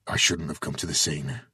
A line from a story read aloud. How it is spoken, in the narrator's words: he mumbled